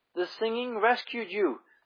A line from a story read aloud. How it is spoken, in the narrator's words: soldier cried in amazement